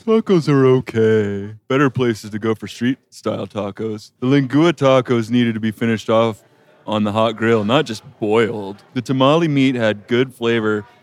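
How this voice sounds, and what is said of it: Reads in a put-on funny voice. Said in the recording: “Bad Reviews Read in a Funny Voice ... read some bad reviews in funny voices”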